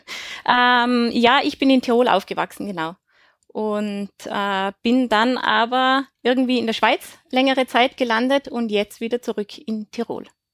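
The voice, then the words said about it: Austrian Tyrolean German accent. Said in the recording (German): “du kommst ursprünglich schon aus, aus Österreich ... Man hört es ein bisschen am Akzent. Man hört es definitiv. Der, das lässt sich nicht verheimlichen”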